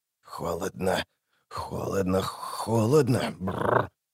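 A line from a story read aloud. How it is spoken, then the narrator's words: Whispering to himself. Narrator (Russian): шептал про себя Высогота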